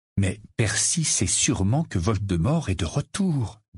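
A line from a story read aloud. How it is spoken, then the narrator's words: Slow. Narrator (French): dit lentement Harry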